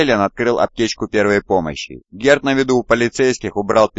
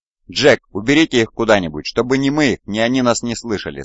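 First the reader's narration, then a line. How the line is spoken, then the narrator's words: Plain. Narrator (Russian): сказал Ланд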